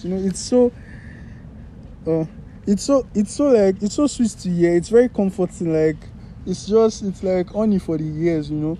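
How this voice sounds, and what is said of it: Nigerian accent. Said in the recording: “this stupid Nigerian accent”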